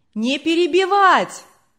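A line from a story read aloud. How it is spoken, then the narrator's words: Distant crowd shouting. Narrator (Russian): кричали на задних рядах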